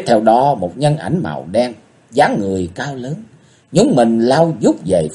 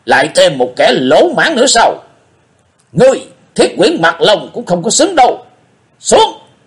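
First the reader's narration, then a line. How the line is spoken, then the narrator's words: Snorting hiss, muffled. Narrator (Vietnamese): Người này hừ một tiếng rít lên qua tấm màn đen che mặt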